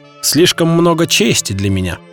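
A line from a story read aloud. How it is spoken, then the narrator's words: Muttered. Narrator (Russian): пробормотал начальник стражи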